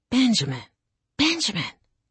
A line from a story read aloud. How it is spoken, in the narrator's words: whispered my grandmother